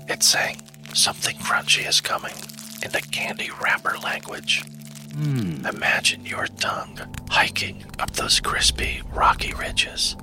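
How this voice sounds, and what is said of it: Whispering. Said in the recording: “this whispering thing is a thing that makes you feel things”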